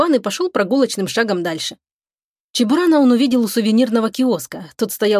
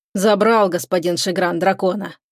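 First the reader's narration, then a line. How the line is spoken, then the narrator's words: Grumbling. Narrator (Russian): проворчал старший диспетчер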